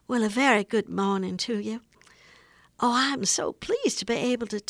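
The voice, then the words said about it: Soft genteel Southern accent as Mary Todd Lincoln. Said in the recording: “the voice of Mary Todd Lincoln ... She would have a very genteel, sweet Southern accent, nothing like the Dukes of Hazzard sort of thing ... she would have been a very soft-spoken lady”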